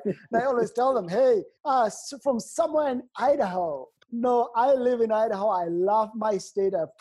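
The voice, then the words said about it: Non-native English accent. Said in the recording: “that guy has an accent. Where does that accent come from ... my accent has stayed with me as I travel around the world ... I came to the United States to go to school”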